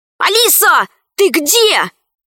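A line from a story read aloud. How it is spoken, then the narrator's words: Shout. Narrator (Russian): Пашка крикнул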